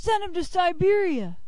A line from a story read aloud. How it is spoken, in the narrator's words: Others cried